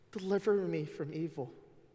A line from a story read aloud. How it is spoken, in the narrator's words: his beloved son plead with him